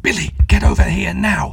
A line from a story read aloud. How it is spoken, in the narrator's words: he managed to urgently whisper in a terrified, cracked voice